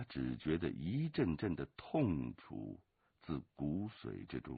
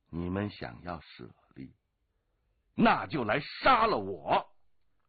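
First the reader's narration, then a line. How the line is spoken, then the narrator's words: Angry shout. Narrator (Chinese): 龙八怒喝道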